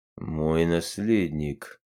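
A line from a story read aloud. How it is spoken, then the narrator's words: King muttering. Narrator (Russian): пробормотал король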